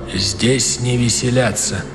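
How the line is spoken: Quiet. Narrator (Russian): генерал Огюст Калинкур тихо сказал

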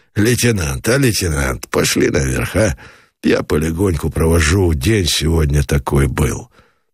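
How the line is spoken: Quiet gentle words. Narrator (Russian): Меженин сказал негромко

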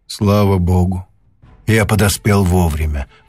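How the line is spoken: Relieved sigh. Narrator (Russian): вздохнул профессор с облегчением

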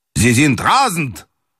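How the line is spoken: Shout. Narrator (Russian): крикнул он

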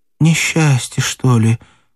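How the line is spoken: Voice breaking. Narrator (Russian): сказала Матрена дрогнувшим голосом

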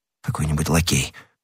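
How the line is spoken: Muttered. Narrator (Russian): пробормотал Д'Артаньян

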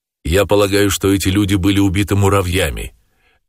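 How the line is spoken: Sharp, in English. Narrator (Russian): резко сказал по-английски Холрейд

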